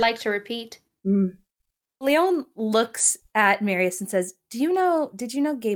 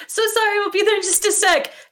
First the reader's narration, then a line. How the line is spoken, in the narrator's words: she kind of shouts ahead